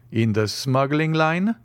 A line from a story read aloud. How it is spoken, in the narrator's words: said Monte Cristo